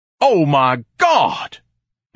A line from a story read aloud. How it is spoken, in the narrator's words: Ignatius thundered